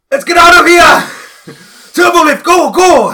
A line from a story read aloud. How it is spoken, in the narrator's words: Flint just yells out